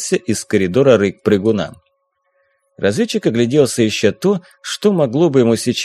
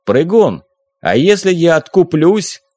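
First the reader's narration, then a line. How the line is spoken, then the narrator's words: Loud shout. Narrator (Russian): громко крикнул он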